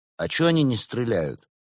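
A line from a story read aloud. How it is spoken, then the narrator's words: Plain. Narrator (Russian): спросил Константин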